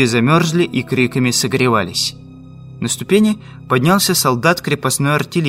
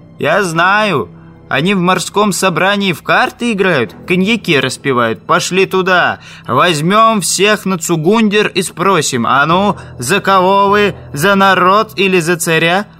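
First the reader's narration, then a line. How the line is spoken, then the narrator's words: Shouting. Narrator (Russian): кричали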